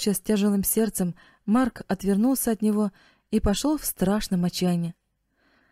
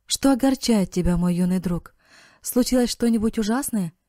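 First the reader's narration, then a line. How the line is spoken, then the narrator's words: Gentle, kind voice. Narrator (Russian): Послышался ласковый голос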